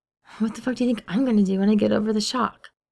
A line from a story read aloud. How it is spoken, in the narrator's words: James mutters under his breath